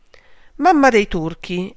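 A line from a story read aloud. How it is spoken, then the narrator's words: Exclaimed. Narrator (Italian): esclamò Fanny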